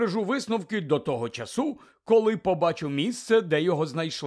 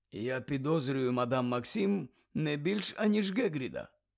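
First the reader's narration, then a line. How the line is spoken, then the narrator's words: Calm. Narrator (Ukrainian): так само спокійно промовив Дамблдор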